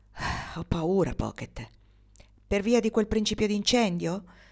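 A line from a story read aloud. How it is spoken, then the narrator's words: Sighing. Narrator (Italian): Lei gli rispose con un sospiro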